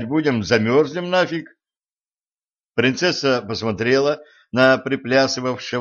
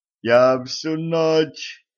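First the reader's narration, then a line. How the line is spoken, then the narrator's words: Moan. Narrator (Russian): застонал Ланс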